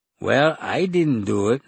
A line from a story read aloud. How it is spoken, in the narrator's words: said Raoul, his tone reasonable